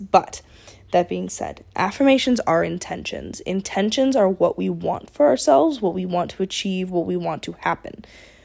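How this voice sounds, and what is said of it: Slightly sick, altered voice with pauses. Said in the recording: “if I sound really annoying and I kind of like stop every once in a while, I am a little bit sick ... My voice is a little bit different”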